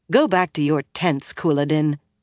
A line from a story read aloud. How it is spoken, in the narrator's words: Milane said coldly